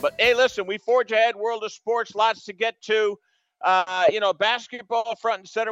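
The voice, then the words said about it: Strained, fading voice. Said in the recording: “on a day where I'm losing my voice. I lose it, I get it back, I lose it again ... Everybody's sick”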